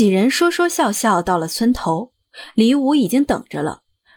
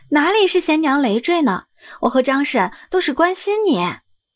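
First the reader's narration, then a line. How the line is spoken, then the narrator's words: Casual, laughing. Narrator (Chinese): 柳氏毫不在意的说着笑着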